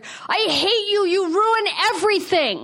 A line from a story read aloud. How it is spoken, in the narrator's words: I screeched at her